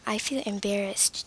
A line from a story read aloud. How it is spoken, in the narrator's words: John answered